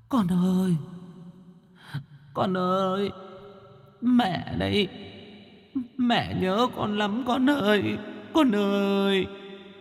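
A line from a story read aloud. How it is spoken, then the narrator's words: Tearful whimpering ghost woman. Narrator (Vietnamese): Nữ quỷ mếu máo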